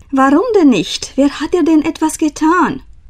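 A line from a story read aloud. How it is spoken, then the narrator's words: Laughing. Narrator (German): Frau Holle lachte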